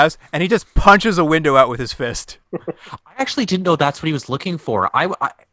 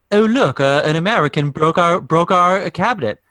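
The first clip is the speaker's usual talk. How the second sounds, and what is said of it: Put-on English accent. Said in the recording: “That's my English accent”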